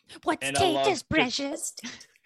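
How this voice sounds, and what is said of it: Phlegmy Gollum creature voice. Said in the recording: “Someone has a Gollum impression ... it's like a kind of an easy voice to do. Just get some phlegm in the back of the throat.”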